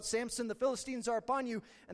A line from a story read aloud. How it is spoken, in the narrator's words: she yells out